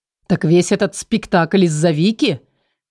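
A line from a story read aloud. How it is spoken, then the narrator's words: Astonished sudden laugh. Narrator (Russian): был настолько поражен, что вместо того, чтобы злиться, вдруг рассмеялся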